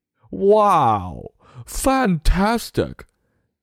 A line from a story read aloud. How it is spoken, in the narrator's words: Hinge cried